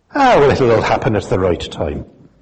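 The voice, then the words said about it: Attempted Irish accent, not very convincing. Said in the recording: “That was supposed to be an Irish accent. Apologies to anyone who can do a better one”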